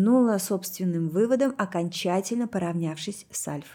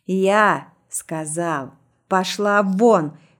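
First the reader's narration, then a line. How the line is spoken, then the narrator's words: Roared. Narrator (Russian): взревел Снежный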